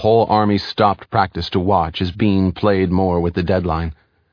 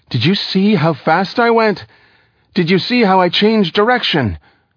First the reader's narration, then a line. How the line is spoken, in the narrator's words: Slowing down his speech, Bean called out again